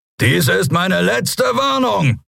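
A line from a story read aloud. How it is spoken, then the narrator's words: Roaring. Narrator (German): brüllte er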